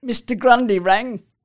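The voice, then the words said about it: Impression of an older woman. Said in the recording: “I'm going to do my mother's voice... do an impression of my mother”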